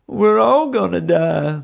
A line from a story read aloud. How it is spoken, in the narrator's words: Bubba moaned